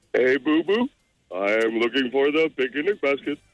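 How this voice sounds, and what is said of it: Cartoon bear character voice. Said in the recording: “Yogi Bear.”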